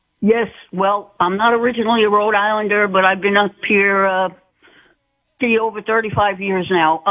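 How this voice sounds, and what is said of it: Rhode Island accent. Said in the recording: “I know that accent. I know that accent, darling. I know you're a true Rhode Islander.”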